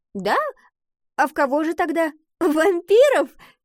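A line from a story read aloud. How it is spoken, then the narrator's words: Laughing. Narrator (Russian): засмеялась Гретхен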